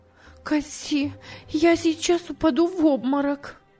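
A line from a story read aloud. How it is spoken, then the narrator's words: Startled exclamation. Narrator (Russian): сердце Эмилины замерло, она воскликнула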